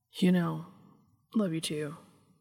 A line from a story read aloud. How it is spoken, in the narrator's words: he muttered